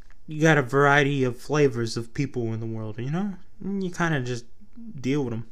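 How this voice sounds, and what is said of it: Put-on New York accent. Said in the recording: “I don't know why I started talking in like a New York accent. I'm from Texas.”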